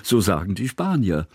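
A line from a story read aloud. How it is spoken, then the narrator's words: Laughing. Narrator (German): lachte Kusmin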